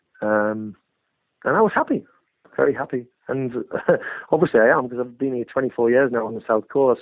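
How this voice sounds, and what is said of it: Northern English Hartlepool accent. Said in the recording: “my hometown of Hartlepool. I'm almost more southern than I am northern ... Apart from the accent, you can't lose that, right? ... The accent”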